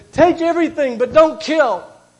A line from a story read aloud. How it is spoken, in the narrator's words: cried to them